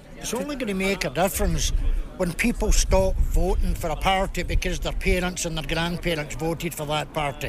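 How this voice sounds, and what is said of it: Scottish accent. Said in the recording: “You'll gather by the accent ... I'm here from Scotland.”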